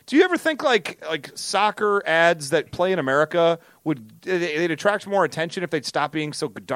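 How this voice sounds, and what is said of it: Usual voice. Nothing is said of it.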